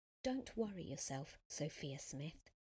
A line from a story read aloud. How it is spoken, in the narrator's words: said quietly